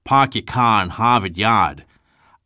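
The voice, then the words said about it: Attempted Boston accent. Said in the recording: “the unique Bostonian accent ... I have been practicing sounding like a Bostonian, but I don't do a very good job yet.”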